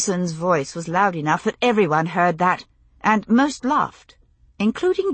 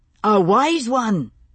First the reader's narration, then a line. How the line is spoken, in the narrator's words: Jamie shouted back